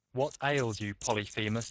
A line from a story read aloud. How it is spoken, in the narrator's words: said they